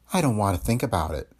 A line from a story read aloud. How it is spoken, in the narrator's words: she murmured